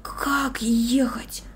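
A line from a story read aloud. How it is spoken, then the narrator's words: Whispered. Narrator (Russian): прошептал он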